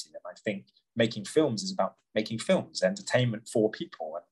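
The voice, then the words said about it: English accent. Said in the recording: “You have such a beautiful English accent... your native accent”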